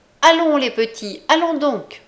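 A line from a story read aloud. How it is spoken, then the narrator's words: Shouted. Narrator (French): cria-t-elle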